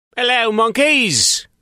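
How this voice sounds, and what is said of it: Weird put-on British accent. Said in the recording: “I affected a weird British accent for that one, sort of.”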